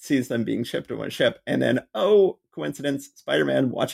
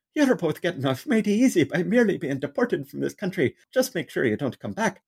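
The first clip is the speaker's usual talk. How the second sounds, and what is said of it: Thick put-on Irish accent. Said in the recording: “I always give the cops thick Irish accents because it's more fun that way. So we've got an Irish cop going”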